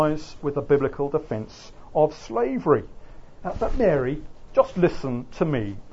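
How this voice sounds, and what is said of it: Usual voice. Nothing is said of it.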